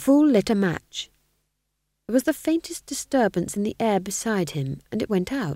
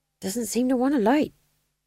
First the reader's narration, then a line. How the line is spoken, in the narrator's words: muttered the fool